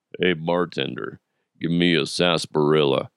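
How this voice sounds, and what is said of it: Weak deep-voiced impression of another person. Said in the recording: “Or I could do Sam Elliott... I don't think my voice is as deep as it was yesterday... Nah, that doesn't sound good at all.”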